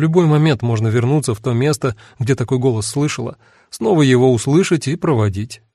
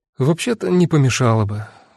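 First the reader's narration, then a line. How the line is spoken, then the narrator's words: Sighing. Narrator (Russian): вздохнула Эва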